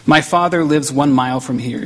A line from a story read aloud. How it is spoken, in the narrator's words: she said